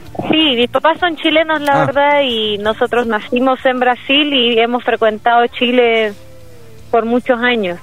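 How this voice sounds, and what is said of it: Chilean Spanish accent. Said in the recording (Spanish): “tenés la tonada chilena”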